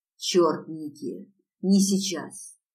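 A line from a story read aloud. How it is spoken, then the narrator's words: Almost rude. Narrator (Russian): почти грубо сказал он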